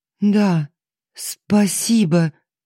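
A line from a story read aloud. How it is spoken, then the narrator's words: Choked, holding back sobs. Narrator (Russian): выдавила Алиса, усилием воли подавляя рвущееся наружу рыдание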